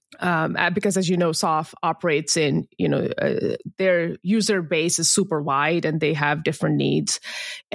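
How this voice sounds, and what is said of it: Speaker's own foreign accent. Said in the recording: “that's my accent coming in the way”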